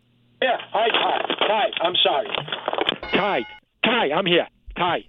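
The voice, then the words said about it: Loud, frazzled shouting. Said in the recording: “Why are you screaming... Why are you so frazzled?”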